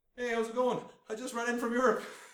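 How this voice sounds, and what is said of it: Put-on Canadian accent. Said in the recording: “doing the Canadian accent because he's Canadian”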